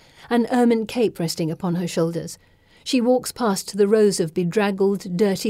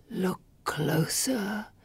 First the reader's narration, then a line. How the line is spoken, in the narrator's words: the tree whispers